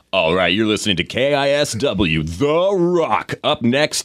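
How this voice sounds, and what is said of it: Corny morning radio DJ voice. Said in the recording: “pretend you have the most corny, morning show voice ever ... Pretend you're Jay on The Wolf”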